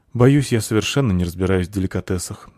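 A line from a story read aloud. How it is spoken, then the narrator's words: Sighing. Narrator (Russian): вздохнула Заверушка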